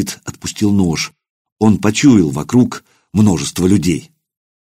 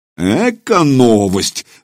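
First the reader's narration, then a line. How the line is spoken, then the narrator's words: Laughing man. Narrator (Russian): засмеялся разбойник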